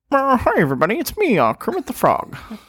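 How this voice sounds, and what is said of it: Poor Kermit the Frog impression. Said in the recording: “my impersonation of Kermit ... That doesn't sound like him.”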